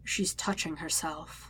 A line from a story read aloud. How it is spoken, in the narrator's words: Napoleon whispers in his ear